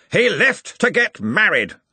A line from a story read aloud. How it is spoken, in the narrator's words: snapped Ridcully